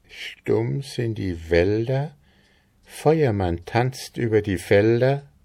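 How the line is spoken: Uncertain voice. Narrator (German): Frau Stine mit unsicherer Stimme selbst fortfuhr

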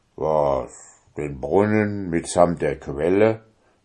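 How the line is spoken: Fearful giant's mumbling grumble. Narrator (German): brummte der Riese, der ein bisschen tölpisch und albern war, in den Bart hinein und fing an, sich zu fürchten

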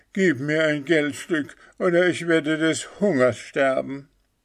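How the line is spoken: Leper's kneeling plea. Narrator (German): der Aussätzige kniete nieder und rief

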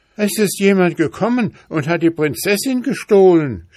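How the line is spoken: Horse shouting. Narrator (German): schrie der Schimmel

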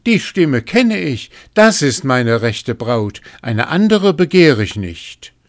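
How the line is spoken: Calling out. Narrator (German): rief

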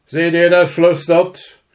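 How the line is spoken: King shouting. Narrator (German): schrie der König

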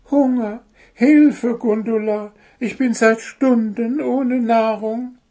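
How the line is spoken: Whimpering. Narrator (German): wimmerte Zwitschi

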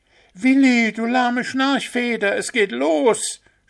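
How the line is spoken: Shouting as loud as possible. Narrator (German): schrien die Hasen so laut sie konnten

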